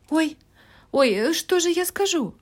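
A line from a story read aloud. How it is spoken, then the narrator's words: Exclaimed. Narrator (Russian): воскликнула Салли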